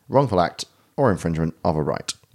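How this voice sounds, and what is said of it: Put-on formal legal-sounding accent. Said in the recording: “I do like the little accent you put on that. ... That's my law accent.”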